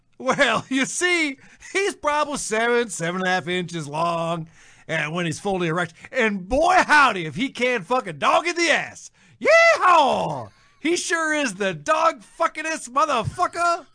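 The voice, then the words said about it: Put-on accent. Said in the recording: “I don't know what I'm doing with my accent there. I don't know where I'm going with that.”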